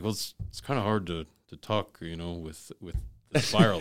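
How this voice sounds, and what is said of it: Imitates another person's voice. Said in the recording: “Good impression.”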